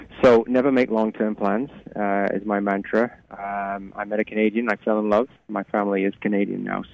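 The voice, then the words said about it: Mid-Atlantic British-Canadian accent. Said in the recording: “it does give me probably a mid-Atlantic accent. So wherever I go, apparently, I have an accent.”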